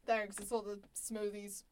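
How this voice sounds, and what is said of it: Deep voice. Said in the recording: “we've got a really deep voice.”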